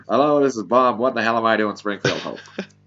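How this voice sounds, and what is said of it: Good Bob Hope impression. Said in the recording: “Bob Hope ... It's a good impression.”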